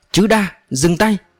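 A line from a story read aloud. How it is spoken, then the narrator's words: Sudden loud shout. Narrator (Vietnamese): Sau Lử lên tiếng hét lớn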